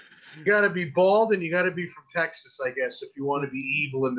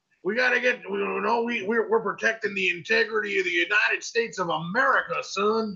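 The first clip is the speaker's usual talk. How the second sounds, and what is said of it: Exaggerated Texan accent. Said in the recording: “that stereotypical Texan accent”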